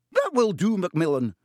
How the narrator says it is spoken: said Professor McGonagall sharply

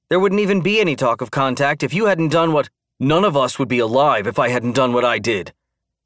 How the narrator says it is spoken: Dan snapped defensively

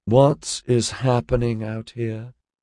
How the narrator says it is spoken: she drawled in a husky voice

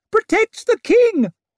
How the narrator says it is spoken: came Gorst's shriek

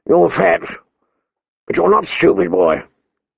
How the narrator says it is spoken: the old bear said gruffly

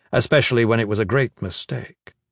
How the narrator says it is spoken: Gavin said quickly

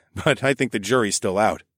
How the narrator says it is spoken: I said, with a laugh

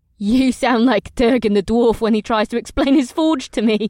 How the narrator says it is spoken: Amrila laughed

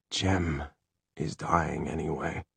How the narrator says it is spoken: Will said in a choked voice

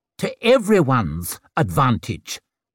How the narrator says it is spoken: he barked

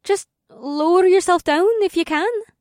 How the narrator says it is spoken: Amber said in a worried voice

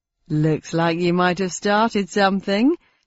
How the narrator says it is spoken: said the funster with a chuckle

